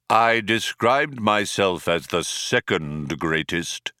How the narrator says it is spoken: intoned Deep Thought

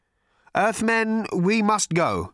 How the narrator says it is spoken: said Slarty Bartfast nervously

